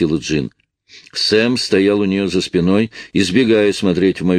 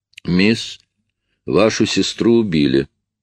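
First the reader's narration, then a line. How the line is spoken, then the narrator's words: Flat even tone. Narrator (Russian): ровным тоном сказал шериф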